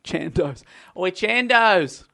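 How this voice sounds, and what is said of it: Odd put-on accent, slurred words. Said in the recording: “I don't know what that accent was. I wasn't even intending to do it... Started slurring my words”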